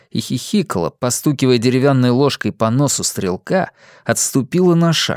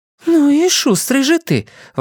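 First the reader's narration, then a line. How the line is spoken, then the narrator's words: Exclamation. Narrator (Russian): воскликнула она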